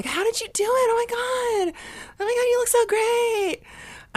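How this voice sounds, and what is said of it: Imitates other people's gushing voices. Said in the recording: “That's my impression of literally everyone that I know.”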